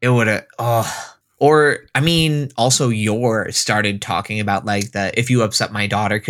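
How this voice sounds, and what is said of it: Usual voice. Nothing is said of it.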